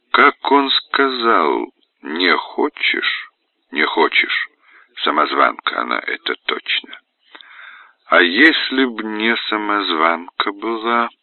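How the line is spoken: Sad wry smirk. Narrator (Russian): Человек в зеркале печально усмехнулся

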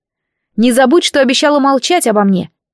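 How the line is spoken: Shouting after someone. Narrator (Russian): крикнула я ей вслед

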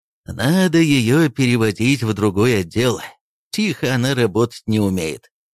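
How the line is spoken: Tired speech. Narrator (Russian): устало сказал Орлов

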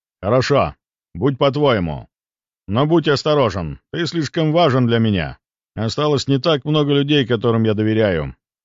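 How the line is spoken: Stern. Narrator (Russian): строго проговорил он

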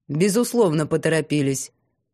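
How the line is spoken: Cold, curt interruption. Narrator (Russian): холодно перебил Саварт, не удосужившись дослушать до конца

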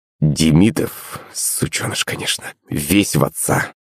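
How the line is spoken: Father, through teeth. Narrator (Russian): процедил батя

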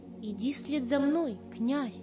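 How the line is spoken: Calm. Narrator (Russian): спокойно сказал

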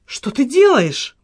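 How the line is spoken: Exclamation. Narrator (Russian): воскликнула она

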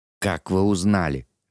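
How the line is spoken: Forced through teeth. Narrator (Russian): выдавил Кадберт сквозь зубы

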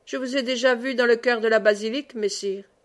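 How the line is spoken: Cold. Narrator (French): dit-il froidement

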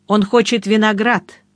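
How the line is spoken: Plain. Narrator (Russian): сказал я

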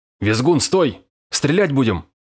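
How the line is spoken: Shout. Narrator (Russian): выкрикнул Островой

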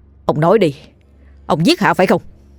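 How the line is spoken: Stern after exhale. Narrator (Vietnamese): thở hắt ra một hơi rồi quay người nghiêm giọng

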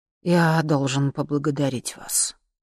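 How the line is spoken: Quiet. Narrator (Russian): сказал он негромко

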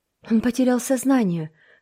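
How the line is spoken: Breathless exhale. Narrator (Russian): выдохнула Марила

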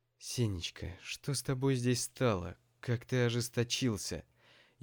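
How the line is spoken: Frightened whisper, mother. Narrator (Russian): испуганно зашептала мама

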